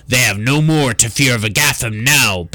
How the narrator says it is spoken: bellowed Grignir in a deep, mirthful tone

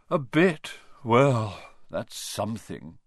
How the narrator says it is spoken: Ronan sighed

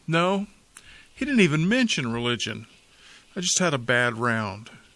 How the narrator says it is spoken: the thoroughly embarrassed pro heaved a sigh and said

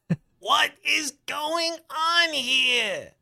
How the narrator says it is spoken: Richie moans again

